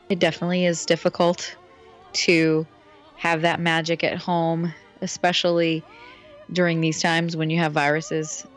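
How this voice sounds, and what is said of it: Raspy voice. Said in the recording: “under the weather ... my little bit raspy voice”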